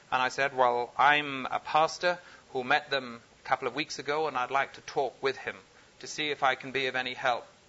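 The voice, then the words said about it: Unusual foreign accent. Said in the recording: “I have a strange accent, and most people wonder quite what I'm about”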